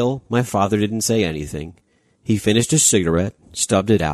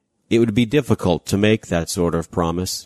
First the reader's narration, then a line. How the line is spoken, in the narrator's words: he said